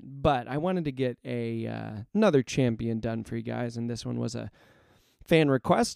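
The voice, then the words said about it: Hoarse, strained voice. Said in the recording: “my voice is still kind of wrecked and my throat is not at 100%”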